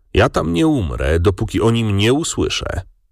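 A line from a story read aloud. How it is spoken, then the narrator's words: Calm father replying. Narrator (Polish): ojciec spokojnie odparł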